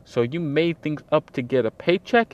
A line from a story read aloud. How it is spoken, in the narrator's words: Dickinson snapped